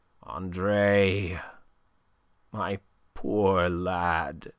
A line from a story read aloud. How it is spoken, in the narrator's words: he murmured